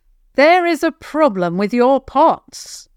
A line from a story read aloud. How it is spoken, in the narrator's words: Javen called out, not wanting to get any closer